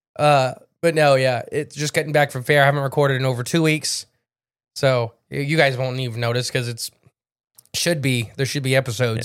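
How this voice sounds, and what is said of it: Sick, tired, losing voice. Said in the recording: “I am sick... And I'm tired. And I'm losing my voice... I'm trying not to cough.”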